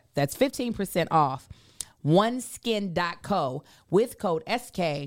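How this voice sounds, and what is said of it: Deliberately slower speech. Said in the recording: “I'm going to say it slower.”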